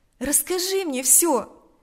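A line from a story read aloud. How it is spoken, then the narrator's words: Compassionate exclamation. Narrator (Russian): воскликнула она в порыве сострадания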